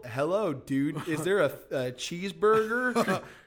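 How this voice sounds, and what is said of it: Put-on American accent. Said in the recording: “he does an American accent”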